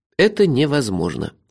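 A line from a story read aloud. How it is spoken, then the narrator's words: Calm objection. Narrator (Russian): спокойно возразил я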